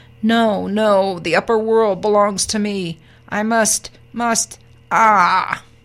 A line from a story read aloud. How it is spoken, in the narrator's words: Spar howled angrily as he plummeted